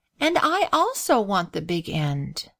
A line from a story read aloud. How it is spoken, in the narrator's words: replied Grace with a sigh